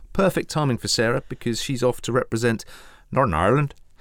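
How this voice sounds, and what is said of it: Put-on Welsh accent. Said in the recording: “Just to insult a few people from across the Irish Sea there. Could you tell which accent that was? ... Welsh. ... Correct.”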